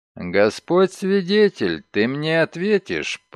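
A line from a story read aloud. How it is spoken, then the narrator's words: Through gritted teeth. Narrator (Russian): процедил сквозь зубы Шерман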